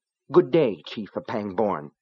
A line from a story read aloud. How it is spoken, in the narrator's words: Rose said coldly